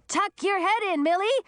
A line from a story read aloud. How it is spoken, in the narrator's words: Audun was screaming